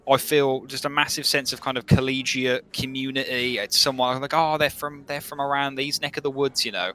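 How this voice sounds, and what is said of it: Brummie Birmingham English accent. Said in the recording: “particularly in my accent. I love having a Brummie accent because when I hear this accent”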